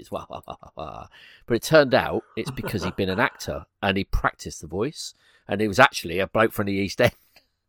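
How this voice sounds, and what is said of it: British accent that sounds common. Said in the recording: “the accent you've got ... to me, I sound really like, as we say over here, common”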